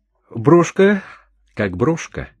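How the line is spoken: Even voice. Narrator (Russian): сказала мадам ровным голосом

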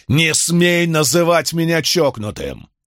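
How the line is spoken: Roaring. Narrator (Russian): взревел Бенни

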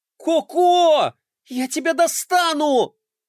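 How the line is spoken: Yelled. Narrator (Russian): завопила Глория

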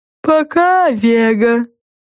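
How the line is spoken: Sad drawl. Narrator (Russian): грустно протянул Му

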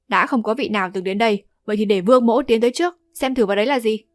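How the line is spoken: Raised voice. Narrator (Vietnamese): Vương Đại Niên cao giọng nói

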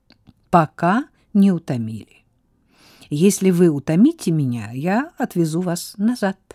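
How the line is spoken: Laughing. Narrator (Russian): рассмеялся Пьер

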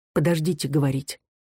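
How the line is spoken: Soft request. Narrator (Russian): тихонько попросил

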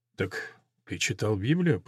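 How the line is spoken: Muttered. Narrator (Russian): пробормотал барон

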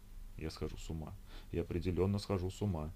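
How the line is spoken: Muttering under breath. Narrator (Russian): пробормотала Ольга себе под нос

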